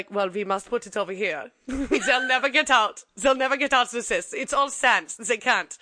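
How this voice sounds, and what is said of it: Bad put-on German accent. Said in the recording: “my really bad German accent”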